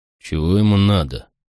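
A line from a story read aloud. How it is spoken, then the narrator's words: Sleepy question. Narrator (Russian): сонно спросил Макрон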